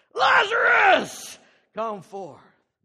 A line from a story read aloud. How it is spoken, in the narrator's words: cried out in a loud voice